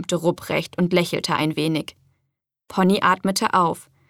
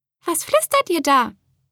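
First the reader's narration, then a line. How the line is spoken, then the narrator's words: Squeaking mice. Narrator (German): piepsten die Mäuse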